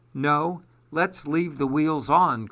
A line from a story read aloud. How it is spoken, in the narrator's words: cried Paul